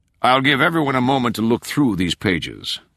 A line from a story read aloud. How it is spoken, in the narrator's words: Sexton said